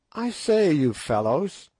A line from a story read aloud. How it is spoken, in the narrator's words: he said presently, in a constrained sort of voice